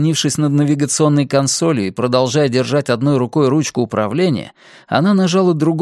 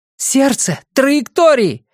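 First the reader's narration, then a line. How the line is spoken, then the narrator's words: Shouted over intercom. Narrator (Russian): крикнула она в интерком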